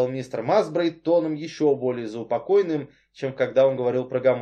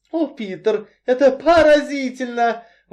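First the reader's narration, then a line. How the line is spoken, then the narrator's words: Exclaiming. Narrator (Russian): воскликнула Бекки Берден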